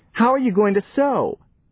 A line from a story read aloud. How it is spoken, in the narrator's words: she wailed